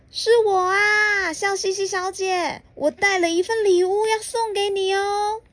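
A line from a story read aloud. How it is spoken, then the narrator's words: Loud answer. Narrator (Chinese): 快乐先生大声的回答说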